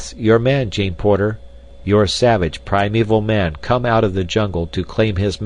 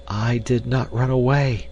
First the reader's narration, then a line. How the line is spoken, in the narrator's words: she whispered